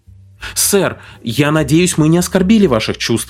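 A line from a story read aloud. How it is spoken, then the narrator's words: Exclaiming girl. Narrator (Russian): воскликнула девушка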